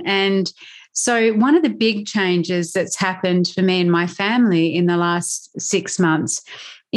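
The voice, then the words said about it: Australian accent. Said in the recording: “You can hear through my accent, I'm guessing that you can hear that I'm Australian.”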